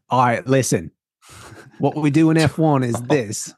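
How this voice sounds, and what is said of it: Bad Australian-Irish accent. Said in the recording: “That wasn't too bad ... That was a bad accent ... It's like Australian Irish ... definitely in the Southern Hemisphere”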